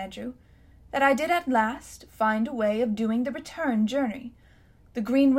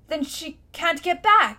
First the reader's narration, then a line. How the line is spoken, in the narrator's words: shouted Diggory